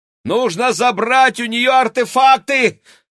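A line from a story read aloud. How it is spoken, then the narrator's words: Shout. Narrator (Russian): крикнул Максим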